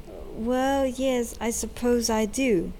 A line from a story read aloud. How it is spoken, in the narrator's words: said Tuk